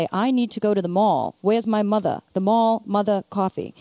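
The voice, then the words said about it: Put-on Long Island accent. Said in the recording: “It's all in the accent ... if you're from Long Island, you would say”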